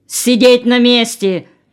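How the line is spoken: Warning shout. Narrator (Russian): предостерегающе крикнул на Олега старший ГПУшник

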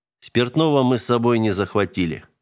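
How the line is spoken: Plain. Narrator (Russian): ответил он

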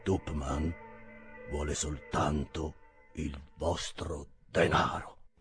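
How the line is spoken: Low deep conflicted voice. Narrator (Italian): diverse emozioni contrastanti, poi disse con voce bassa e profonda

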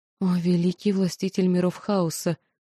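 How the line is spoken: Frightened demon pleading. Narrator (Russian): взмолился перепуганный перспективами демон

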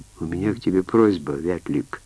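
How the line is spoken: Quiet beginning. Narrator (Russian): тихо начала она

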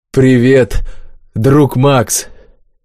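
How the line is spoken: Heavily accented speech. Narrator (Russian): с сильным акцентом, но по-русски произнесли

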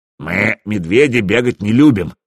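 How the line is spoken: Grumbled. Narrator (Russian): проворчал Свартхёвди

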